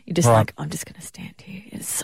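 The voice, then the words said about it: Whispering. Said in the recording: “are you whispering? ... Everyone can still hear you.”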